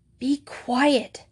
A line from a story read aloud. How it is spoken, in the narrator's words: hissed Juliet